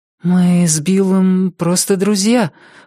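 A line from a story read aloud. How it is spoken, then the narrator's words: Forced out, embarrassed. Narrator (Russian): выдавила Рози, чувствуя себя последней дурой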